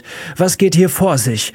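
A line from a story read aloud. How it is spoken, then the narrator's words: Shouted across the classroom. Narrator (German): schrie Miss Thatcher durch den Klassenraum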